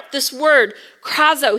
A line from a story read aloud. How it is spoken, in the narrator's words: he cries out